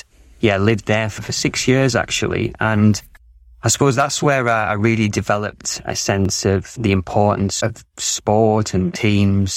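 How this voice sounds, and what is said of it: English accent, Lancashire origin. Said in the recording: “I'm living in Australia, but this is an English accent. And originally from Lancashire”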